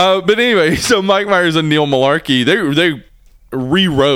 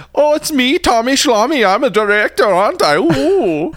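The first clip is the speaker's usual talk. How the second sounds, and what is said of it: Silly put-on voice. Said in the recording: “like doing a silly voice.”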